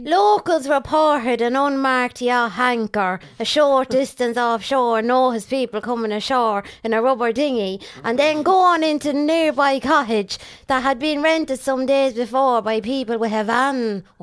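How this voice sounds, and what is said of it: Put-on rural Irish accent. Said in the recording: “That was a very good accent. ... It was Cork. ... it was from Galway or somewhere.”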